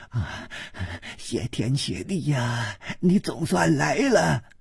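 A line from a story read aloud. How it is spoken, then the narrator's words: Panting. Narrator (Chinese): 喘息着说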